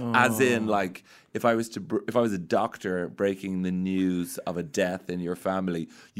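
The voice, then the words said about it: Irish accent. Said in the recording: “this accent has in Ireland, where everyone sounds exactly like this ... an Irish accent”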